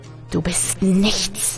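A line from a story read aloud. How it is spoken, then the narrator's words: Demon hissing. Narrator (German): zischte der Dämon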